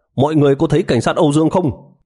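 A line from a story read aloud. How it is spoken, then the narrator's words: Hurried urgent call. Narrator (Vietnamese): một cảnh sát chạy tới vội vàng kêu lên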